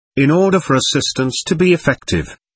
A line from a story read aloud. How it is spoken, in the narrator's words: he exclaimed